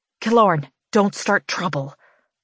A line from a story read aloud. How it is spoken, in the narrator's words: I hiss